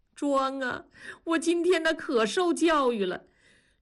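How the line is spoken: Sudden wailing shout. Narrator (Chinese): 庄嫂突然哇的大哭起来，喊道

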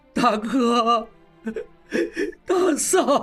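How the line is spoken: Sobbing bitterly. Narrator (Chinese): 磕头痛哭

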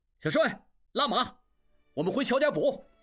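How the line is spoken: Excited shout. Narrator (Chinese): 众人一时都十分兴奋，应季喊

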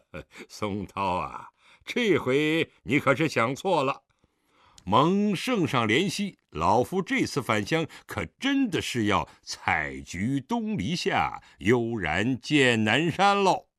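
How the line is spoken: Smiling reply. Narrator (Chinese): 狄仁杰笑眯眯地答道

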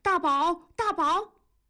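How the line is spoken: Repeated insistent shouting. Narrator (Chinese): 同志一个劲儿地喊

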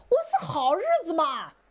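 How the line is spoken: Shout from crowd. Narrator (Chinese): 底下有人喊了

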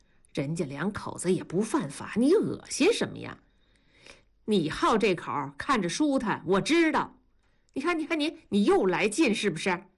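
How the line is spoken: Laughing. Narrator (Chinese): 同志就笑了

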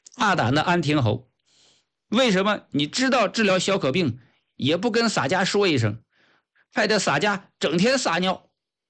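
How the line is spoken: Loud shout. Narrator (Chinese): 郑和大声喊道

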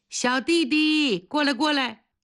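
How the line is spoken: Calling out. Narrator (Chinese): 王一硕把他叫住了

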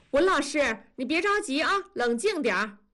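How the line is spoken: Calling from behind. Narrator (Chinese): 校长在背后喊

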